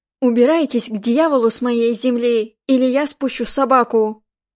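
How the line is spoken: Hoarse shout. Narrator (Russian): хриплый голос прокричал

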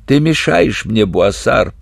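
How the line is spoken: Hoarse wheeze. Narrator (Russian): прохрипел из травы капрал

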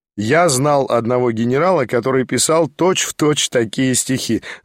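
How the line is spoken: Remarked laughing. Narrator (Russian): заметил я, смеясь

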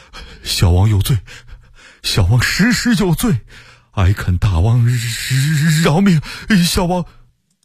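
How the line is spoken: Trembling voice. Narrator (Chinese): 福王不住的叩头，声音哆哆嗦嗦的说

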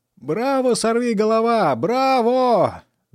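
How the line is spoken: Proud shout. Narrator (Russian): закричал просиявший от гордости Фанфан

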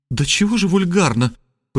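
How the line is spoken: Passionate exclamation. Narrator (Russian): пылко воскликнула она

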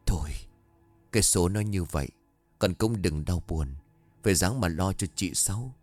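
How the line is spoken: Soft sighing comfort. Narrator (Vietnamese): Bà Tư thở dài nhẹ giọng

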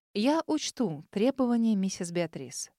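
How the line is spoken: Even, level voice. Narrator (Russian): ровным голосом проговорила

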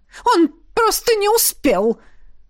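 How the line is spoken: Through gritted teeth. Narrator (Russian): процедила Эдрена

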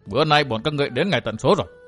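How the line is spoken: Sneering mutter. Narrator (Vietnamese): cười nhạt lẩm bẩm

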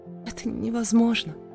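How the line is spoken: Barely audible reply. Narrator (Russian): Едва слышно отозвалась я

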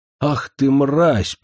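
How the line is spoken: Near growl through teeth. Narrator (Russian): почти прорычала она сквозь зубы

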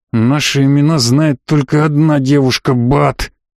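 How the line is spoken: Hiss in someone's face. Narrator (Russian): прошипел Керис в лицо лежащему солдату

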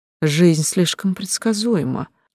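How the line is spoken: Joyless sigh. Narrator (Russian): вздохнула я безрадостно

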